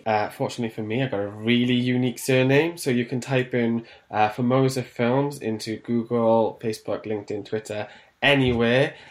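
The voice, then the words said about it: Welsh accent. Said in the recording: “you've got a lovely Welsh accent there”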